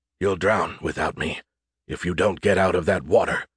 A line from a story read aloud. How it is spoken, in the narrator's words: a weak voice whispered